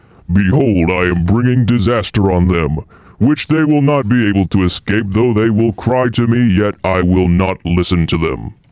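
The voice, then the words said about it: Booming God voice. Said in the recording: “Let me do God voice for this. ... Let me do the God voice.”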